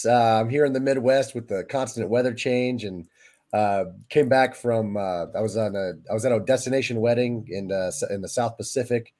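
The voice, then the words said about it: Hoarse, croaky voice. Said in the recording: “apologize for my voice ... Just my voice hasn't returned to me yet. So I do apologize if I sound like Kermit the Frog”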